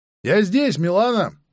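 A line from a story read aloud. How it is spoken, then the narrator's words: Shout. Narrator (Russian): выкрикнул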